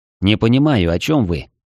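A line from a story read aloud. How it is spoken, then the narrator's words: Slightly irritated curt remark. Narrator (Russian): чуть раздраженно бросил я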